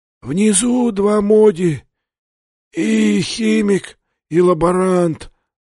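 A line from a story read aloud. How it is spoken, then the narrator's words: Monstrous wheezing. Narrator (Russian): донеслось до Сандерса хрипение монстра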